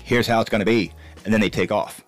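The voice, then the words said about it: Put-on Australian accent. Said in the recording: “is that your Australian accent? ... That's one of them.”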